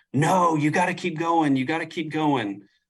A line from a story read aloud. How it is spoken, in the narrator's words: everybody starts screaming at me